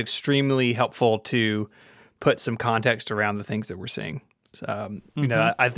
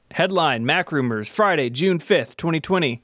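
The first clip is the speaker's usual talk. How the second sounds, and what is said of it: News announcer voice. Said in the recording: “It's my news announcer voice.”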